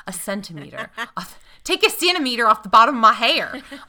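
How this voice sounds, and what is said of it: Nasal North Carolina Southern accent. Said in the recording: “That was very North Carolina ... That's Greensboro ... Greensboro is straight through your nose ... The true Greensboro accent.”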